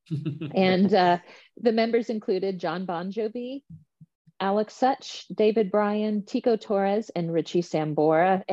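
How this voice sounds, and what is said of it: Slight Texas twang. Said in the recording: “I'm sure I'm saying that with a little bit of a Texas twang there.”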